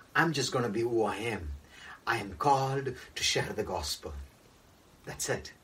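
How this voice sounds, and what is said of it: Indian English accent. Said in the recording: “with an Indian accent”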